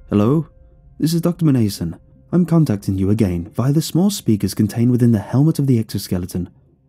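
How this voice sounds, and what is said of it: Character voice with bristly accent. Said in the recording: “A voice, not my own, burst into my head. Its bristly accent was familiar.”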